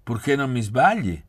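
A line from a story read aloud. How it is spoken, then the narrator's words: Laughing. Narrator (Italian): disse ridendo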